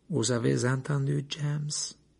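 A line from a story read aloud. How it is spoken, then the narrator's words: Strange voice. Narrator (French): dit Lupin d'une voix étrange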